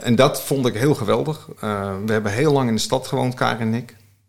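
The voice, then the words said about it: Amsterdam Dutch accent. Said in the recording (Dutch): “mijn accent verraadt al een beetje dat ik opgegroeid ben in Amsterdam, in Staatsliebuurt”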